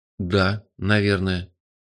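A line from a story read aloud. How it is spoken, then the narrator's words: Uncertain reply. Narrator (Russian): неуверенно откликнулся я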